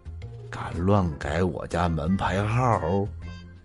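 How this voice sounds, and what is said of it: Cold, icy voice. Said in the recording (Chinese): “冰冷的声音”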